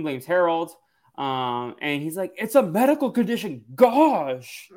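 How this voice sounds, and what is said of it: Energetic Harold impression, Napoleon Dynamite-like. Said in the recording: “That's a good Harold impression. ... not perfectly, but like energetically ... It's very Napoleon Dynamite.”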